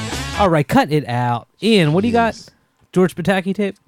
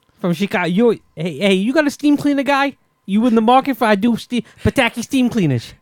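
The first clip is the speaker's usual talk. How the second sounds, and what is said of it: Put-on Chicago accent. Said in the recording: “Is that your Chicago accent?”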